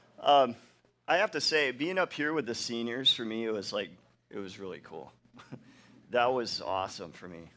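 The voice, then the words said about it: Emotional, choked-up voice. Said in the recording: “I'm getting emotional”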